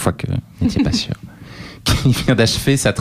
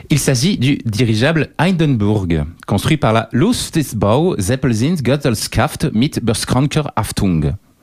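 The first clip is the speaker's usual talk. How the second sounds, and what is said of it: Put-on German accent. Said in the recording (French): “Quel accent ! ... Il est allemand.”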